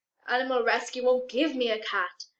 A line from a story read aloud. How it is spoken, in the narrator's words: Lestrade moans